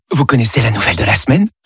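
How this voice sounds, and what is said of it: Whispering. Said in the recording (French): “pourquoi chuchotez-vous ?”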